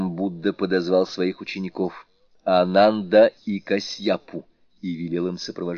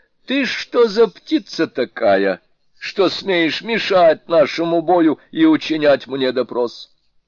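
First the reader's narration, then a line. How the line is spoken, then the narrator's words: Haughty shout. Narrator (Russian): великий мудрец надменно крикнул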